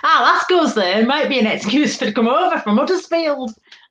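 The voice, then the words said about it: Put-on Yorkshire accent. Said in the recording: “Say it in a Yorkshire accent... Nailed it”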